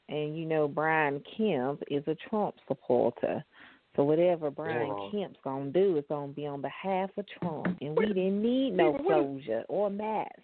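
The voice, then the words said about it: Awful put-on Southern redneck accent. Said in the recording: “Is that your redneck impersonation? It's awful. ... It's just very Southern white people. ... I didn't know if it was thick or British the way you were going ... It kind of went into British for like a quick second. ... It was Southern white, you know. It was a little bit of Henry County.”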